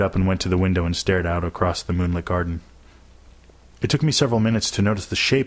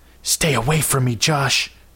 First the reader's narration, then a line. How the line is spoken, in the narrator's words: hissed